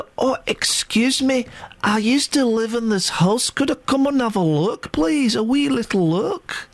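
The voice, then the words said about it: Put-on Scottish accent. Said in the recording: “she's got a Scottish accent”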